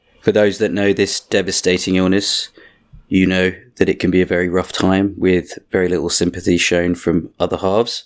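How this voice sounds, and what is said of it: Sick, congested-sounding voice. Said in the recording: “I am suffering from a bit of man flu this week. You can probably tell from my sexy voice.”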